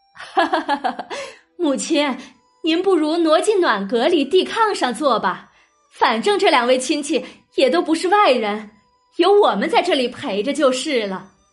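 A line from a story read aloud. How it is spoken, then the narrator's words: Laughing, coaxing. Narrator (Chinese): 王夫人笑着劝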